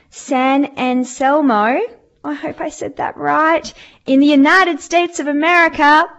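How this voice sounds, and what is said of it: Bad put-on American accent. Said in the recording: “my terrible American accent. I'm sorry. I don't know where that came from.”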